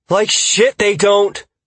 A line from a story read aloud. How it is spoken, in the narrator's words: Kaya shouted back